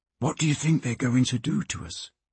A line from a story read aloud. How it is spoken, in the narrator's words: Peter whispered to Alf